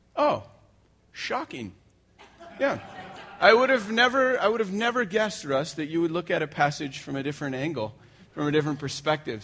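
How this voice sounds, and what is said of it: Sarcastic imitation of another person's voice. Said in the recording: “my best Daniel impression ... Love the cynicism”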